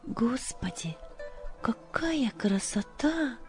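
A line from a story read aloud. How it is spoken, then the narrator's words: Whisper. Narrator (Russian): прошептала Любочка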